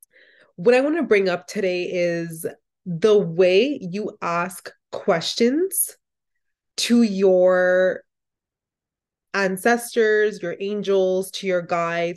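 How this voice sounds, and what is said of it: Rough, unwell-sounding voice. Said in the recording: “excuse my voice today. I'm a little under the weather”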